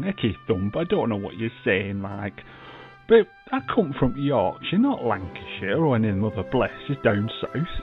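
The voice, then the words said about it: Elderly man's Yorkshire accent. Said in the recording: “it's from Yorkshire, not Lancashire ... I'm 86, you know, I'm getting on a bit”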